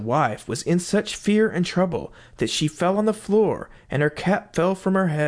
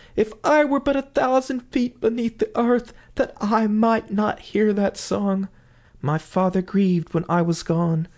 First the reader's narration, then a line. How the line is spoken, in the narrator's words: cried the wife